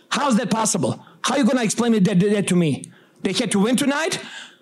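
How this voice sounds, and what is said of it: Serbian accent. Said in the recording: “Serbian, you may detect from the accent.”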